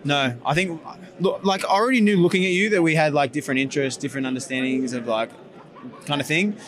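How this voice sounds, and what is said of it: Australian accent. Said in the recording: “I have an Australian accent in America.”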